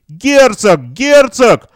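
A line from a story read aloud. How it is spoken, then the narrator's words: Crowd yelling. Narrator (Russian): в толпе завопили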